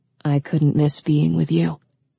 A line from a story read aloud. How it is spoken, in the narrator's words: he said so softly that only she could hear him